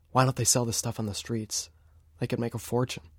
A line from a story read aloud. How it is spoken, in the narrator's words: I mumbled